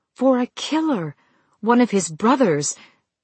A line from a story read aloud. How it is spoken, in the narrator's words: she faltered as the grief rose again to mingle with her anger, nearly choking her